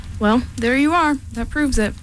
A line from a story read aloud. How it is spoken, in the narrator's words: said Piglet